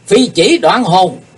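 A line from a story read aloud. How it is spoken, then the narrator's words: Sudden thunderous shout. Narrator (Vietnamese): Kiếm khách Phạm Thiên Hòa bỗng quát to tợ sấm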